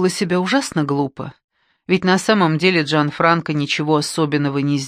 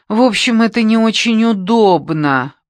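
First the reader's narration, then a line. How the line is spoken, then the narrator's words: Moaned. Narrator (Russian): простонала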